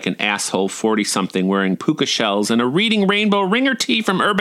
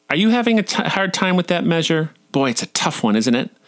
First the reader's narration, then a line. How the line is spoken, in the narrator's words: the soloist whined